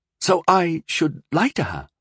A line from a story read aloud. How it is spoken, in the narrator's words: Rondell asked, hesitantly